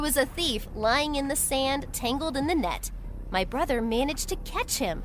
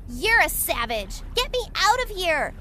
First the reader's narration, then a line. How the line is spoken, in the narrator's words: shouted the thief